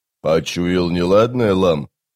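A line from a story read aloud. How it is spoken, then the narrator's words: Snort. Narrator (Russian): Калам фыркнул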